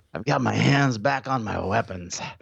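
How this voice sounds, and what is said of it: Imitates another person's voice. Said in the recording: “I don't know how to do a Steve Bannon voice. I'm just going to do this.”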